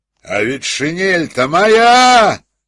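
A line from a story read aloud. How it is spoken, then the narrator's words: Thunderous voice. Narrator (Russian): сказал один из них громовым голосом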